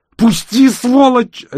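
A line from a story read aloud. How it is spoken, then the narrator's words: Desperate struggling scream. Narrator (Russian): отчаянно закричала она, пытаясь вырваться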